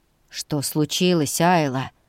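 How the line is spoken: Growl with anxious helplessness. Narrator (Russian): Хейл натурально рычал, хотя я легко улавливала в его голосе нотки тревоги и какого-то бессилия

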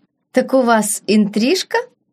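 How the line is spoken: Laughing. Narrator (Russian): Принцесса рассмеялась

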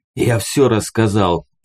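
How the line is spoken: Hoarse wheeze. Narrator (Russian): прохрипел пленник

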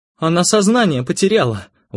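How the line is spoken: Exclamation. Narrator (Russian): воскликнула Светлана

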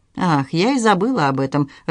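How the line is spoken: Laughing, then abruptly stopping. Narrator (Russian): рассмеялась Поль, но вдруг перестала смеяться

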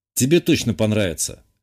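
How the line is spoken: Snorting. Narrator (Russian): хмыкнул я

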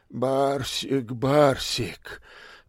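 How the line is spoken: Heavy sigh. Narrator (Russian): так же тяжело вздохнул и Панкратов

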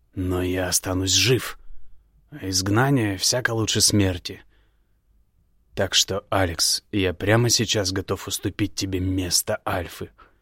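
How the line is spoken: Strained, hopeless. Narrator (Russian): выдавил из себя Игнар, понимая весь масштаб своей безысходности

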